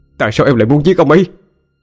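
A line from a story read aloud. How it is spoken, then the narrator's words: Near shout. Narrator (Vietnamese): hổ như hét lên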